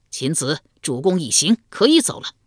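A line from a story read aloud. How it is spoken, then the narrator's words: Wounded warrior's loud cry. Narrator (Chinese): 曹沫为保鲁庄公身负两箭，方大声呼道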